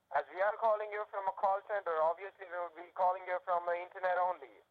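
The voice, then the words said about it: Accent that is not New York. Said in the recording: “that's not a New York accent ... that is definitely not a New York accent”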